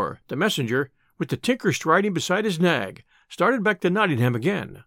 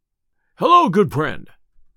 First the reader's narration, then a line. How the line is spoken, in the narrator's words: cried Robin